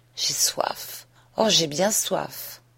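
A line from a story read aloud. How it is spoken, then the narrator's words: Sighed. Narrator (French): soupira-t-elle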